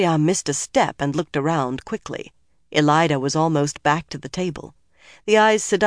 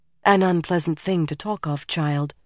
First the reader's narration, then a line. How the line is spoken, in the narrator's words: Shiriam said finally and softly